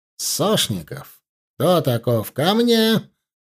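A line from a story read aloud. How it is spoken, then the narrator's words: Barking. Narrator (Russian): рявкнул прапорщик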